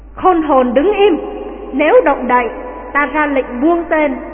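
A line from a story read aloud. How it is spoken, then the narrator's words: Shout. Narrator (Vietnamese): có tiếng quát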